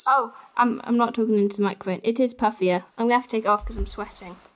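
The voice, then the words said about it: English Midlands accent. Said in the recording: “Your Midlands accent makes that sound ridiculous.”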